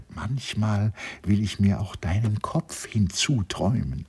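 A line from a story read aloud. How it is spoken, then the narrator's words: Sad, stubborn. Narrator (German): sagte wieder nur traurig, störrig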